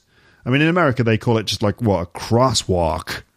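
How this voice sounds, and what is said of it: Poor put-on American accent. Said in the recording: “Is that a terrible American accent?”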